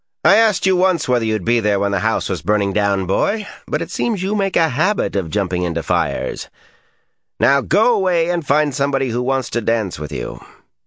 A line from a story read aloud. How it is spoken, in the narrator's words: a voice he recognized said dryly